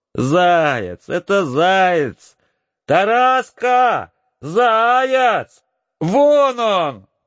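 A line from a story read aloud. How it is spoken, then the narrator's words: Shouting. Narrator (Russian): кричала Ольгушка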